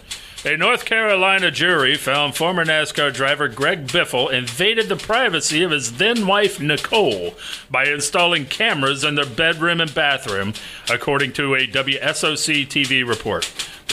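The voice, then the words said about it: News anchor reading voice. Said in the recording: “I can still read it in the news voice.”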